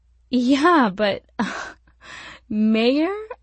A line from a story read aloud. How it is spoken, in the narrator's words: She laughed